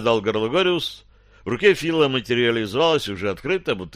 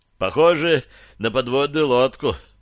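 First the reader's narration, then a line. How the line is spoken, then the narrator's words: Sighing. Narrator (Russian): вздохнул Фил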